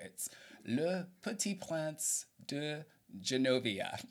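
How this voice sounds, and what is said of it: Put-on French accent. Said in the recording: “you can help me with my French accent here”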